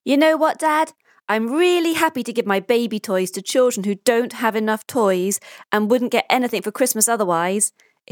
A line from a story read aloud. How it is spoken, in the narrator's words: exclaims Pablo with a very satisfied look